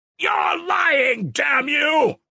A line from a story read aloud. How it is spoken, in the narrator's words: roared Mitya